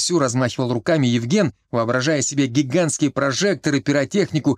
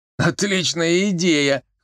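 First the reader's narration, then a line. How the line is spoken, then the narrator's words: Chuckling. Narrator (Russian): хохотнул Колька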